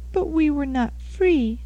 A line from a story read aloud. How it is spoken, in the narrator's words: sobbed Rose